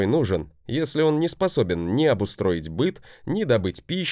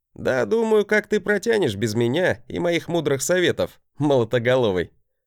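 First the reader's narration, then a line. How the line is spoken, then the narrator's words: Bravado chuckle. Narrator (Russian): Хохотнул я, показывая свою обычную браваду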